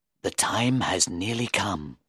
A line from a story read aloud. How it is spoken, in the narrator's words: Faustus whispered